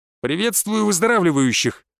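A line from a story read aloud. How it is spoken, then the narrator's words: Barking. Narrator (Russian): рявкнул я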